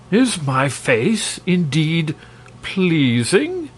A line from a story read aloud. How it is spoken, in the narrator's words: demanded the king eagerly